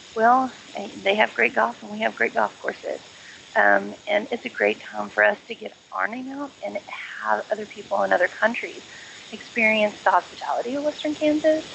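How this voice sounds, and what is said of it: Texas accent. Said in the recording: “I originally grew up in Texas. Here go the accent.”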